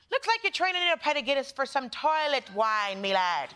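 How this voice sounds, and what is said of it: Put-on Irish accent. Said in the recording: “you want to hear it in an Irish accent. It's so pleasing and charming ... I don't know why we look for me to do an Irish accent. It sounds crazy.”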